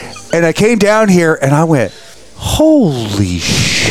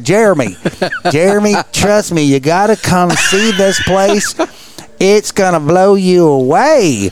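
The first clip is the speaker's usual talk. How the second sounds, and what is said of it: Imitated country accent. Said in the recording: “Actually has a country accent”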